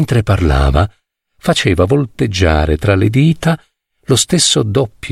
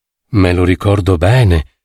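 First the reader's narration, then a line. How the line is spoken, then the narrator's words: Exclamation. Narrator (Italian): esclamai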